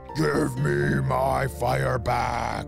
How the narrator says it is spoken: the dragon roared

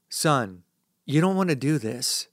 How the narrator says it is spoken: he murmurs

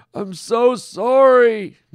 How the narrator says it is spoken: Norm wailed

